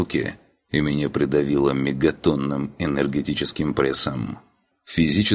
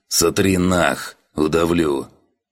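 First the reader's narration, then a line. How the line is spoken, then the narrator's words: Hissed. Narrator (Russian): Только и смог прошипеть я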